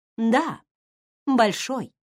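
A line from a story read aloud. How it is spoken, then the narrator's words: Calm, restrained tone. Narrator (Russian): продолжила Эмми спокойным, сдержанным тоном, производившим в тот момент не меньшее впечатление, чем самый гневный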